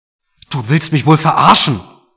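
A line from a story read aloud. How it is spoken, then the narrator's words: Bellowing. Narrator (German): brüllte Mark jetzt, obwohl ihm dabei fast der Kopf explodierte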